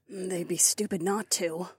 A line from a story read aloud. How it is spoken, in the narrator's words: Lyca grunted